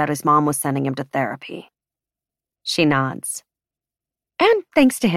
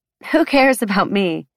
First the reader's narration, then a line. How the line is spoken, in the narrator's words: She asks, with a little laugh